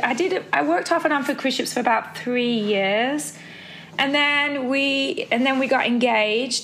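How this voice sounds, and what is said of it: Mixed accent with British hints. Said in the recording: “you've got a real mixture ... An accent ... It's really cute ... I keep hearing little bits of British in there just coming through ... all I hear is British”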